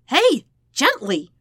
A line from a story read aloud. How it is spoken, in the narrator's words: Sokka yelped